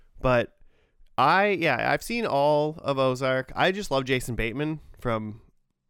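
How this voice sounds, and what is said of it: Usual voice. Nothing is said of it.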